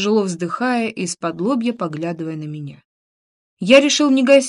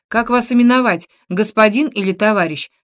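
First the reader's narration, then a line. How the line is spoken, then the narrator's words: Loud question. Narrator (Russian): спросил он громко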